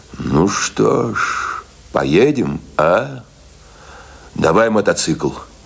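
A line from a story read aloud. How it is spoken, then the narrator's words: Thoughtful. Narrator (Russian): Он задумчиво сказал своему товарищу, рыжему Палайтису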